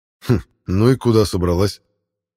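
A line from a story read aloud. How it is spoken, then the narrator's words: Scoffing snort. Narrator (Russian): хмыкнул Альмот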